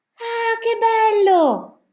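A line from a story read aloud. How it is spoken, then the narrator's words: Shouted. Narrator (Italian): gridò Pezzettino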